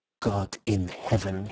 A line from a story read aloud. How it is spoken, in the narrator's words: he said quietly